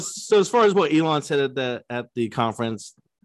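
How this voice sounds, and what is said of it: Usual voice. Nothing is said of it.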